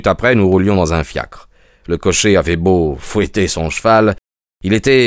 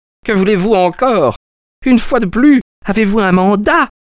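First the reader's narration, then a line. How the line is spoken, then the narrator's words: Furious shout. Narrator (French): hurla Peters, furieux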